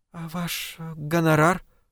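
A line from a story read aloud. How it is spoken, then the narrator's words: Timid question, young woman. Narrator (Russian): робко спросила девушка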